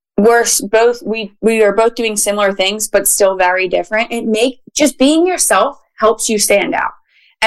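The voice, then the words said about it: Philadelphia accent. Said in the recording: “we're both from Philly. We both have the accent”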